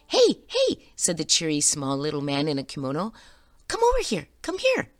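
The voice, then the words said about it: High-pitched cheery character voice. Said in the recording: “high voice”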